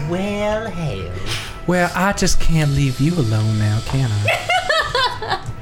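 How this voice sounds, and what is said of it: Put-on Southern accent. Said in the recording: “Southern ... It's a new accent.”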